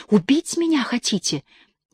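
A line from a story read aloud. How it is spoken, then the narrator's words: Trembling whisper. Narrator (Russian): трясясь, прошептала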